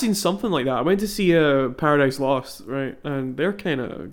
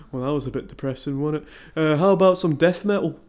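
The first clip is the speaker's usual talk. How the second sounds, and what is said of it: Deadpan Yorkshire voice. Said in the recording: “they're from Yorkshire, so they're very deadpan”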